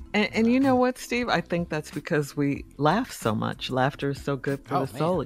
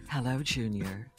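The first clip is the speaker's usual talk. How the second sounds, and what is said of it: Imitates another person's voice. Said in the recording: “I'll do her voice”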